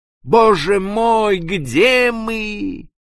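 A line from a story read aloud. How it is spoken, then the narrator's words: Moan. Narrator (Russian): простонал возле меня старший помощник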